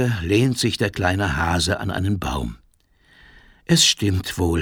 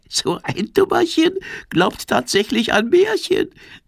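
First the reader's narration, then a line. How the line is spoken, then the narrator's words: Giggling. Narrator (German): kichert die Libelle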